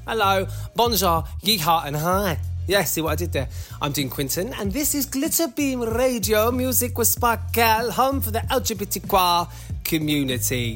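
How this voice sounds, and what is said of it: English Cockney or Essex accent. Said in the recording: “sometimes I hear my accent. Apparently, I've got one at work. People said I sound Cockney. Some people say I sound Essex.”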